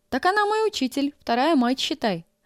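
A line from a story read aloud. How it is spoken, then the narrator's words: Joyful announcement. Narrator (Russian): радостно объявила Нина Ивановна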